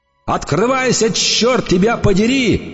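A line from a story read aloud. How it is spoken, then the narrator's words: Shouting. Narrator (Russian): орал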